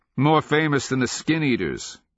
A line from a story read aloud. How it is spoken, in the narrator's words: Galien said cheerfully